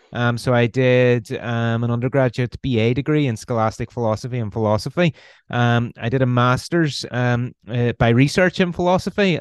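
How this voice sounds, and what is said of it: Northern Irish accent. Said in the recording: “you can probably tell by the accent I'm Irish. I'm from Northern Ireland, uh, originally from Belfast.”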